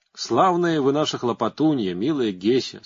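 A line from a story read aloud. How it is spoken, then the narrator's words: Plain. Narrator (Russian): сказал он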